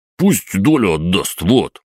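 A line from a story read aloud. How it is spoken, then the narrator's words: Offended blurting. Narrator (Russian): как-то даже обиженно выпалил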